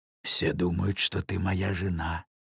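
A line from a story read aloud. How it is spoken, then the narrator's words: Whisper in ear. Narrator (Russian): шепнул он на ухо девушке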